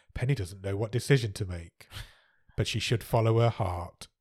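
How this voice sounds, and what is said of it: Soft-spoken imitation of another person's voice. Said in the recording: “My Goldie Hawn impression is not great ... She's very softly spoken all over it.”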